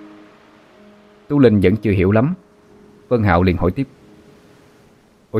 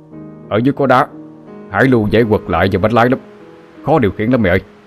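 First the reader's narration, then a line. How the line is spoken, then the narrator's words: Half-shouting. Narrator (Vietnamese): nói mà như hét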